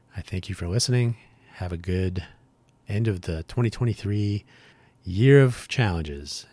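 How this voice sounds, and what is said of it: Strained, tired voice. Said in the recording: “my voice is already giving up”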